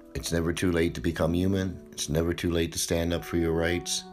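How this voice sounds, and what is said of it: Newfoundland accent. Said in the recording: “here in Newfoundland... I hope my accent doesn't interfere in any of the words that I pronounce”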